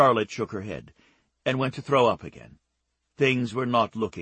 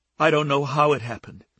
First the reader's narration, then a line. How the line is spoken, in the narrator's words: she said miserably